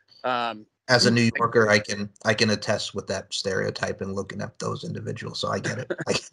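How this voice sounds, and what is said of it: New York accent. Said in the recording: “I didn't know you were from New York. I hear the accent now”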